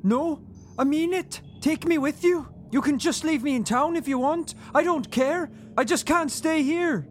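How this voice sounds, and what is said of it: Poor Welsh accent drifting Irish. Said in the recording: “Getting a little bit Irish there. ... I told you I can't do a Welsh accent.”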